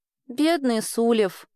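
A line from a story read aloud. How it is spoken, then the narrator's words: Sighing girl. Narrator (Russian): вздохнула девочка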